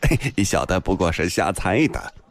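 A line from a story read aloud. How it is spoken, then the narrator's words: Ingratiating laugh. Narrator (Chinese): 梁笑笑陪笑道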